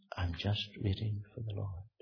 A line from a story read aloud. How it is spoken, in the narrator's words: In a weak voice she says